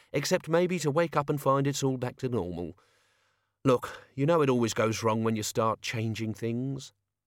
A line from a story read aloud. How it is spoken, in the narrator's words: Albert sighed